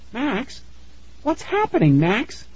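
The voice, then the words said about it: High-pitched child character voice. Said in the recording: “high voice”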